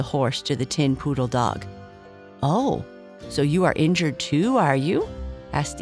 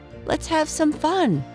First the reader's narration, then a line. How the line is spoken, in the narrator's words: cried the tin poodle dog with a funny little bark